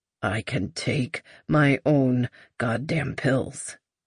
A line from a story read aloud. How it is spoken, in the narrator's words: Lucas muttered again